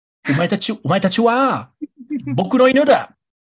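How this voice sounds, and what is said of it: Halting, non-native-sounding Japanese. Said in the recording (Japanese): “片言っぽい日本語を喋らすんですよね ... 僕のモノマネが似てるかどうか”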